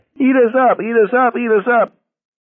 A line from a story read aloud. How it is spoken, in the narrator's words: He was screeching at the top of his voice, but Garrity could barely hear him